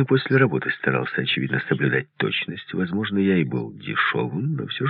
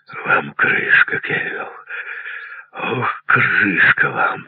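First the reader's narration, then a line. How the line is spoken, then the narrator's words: Wheezing, breathless. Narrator (Russian): прохрипел он, задыхаясь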